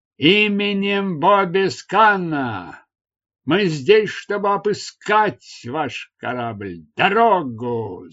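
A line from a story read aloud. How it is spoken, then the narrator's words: Shouting from a ship. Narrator (Russian): закричали с причалившего корабля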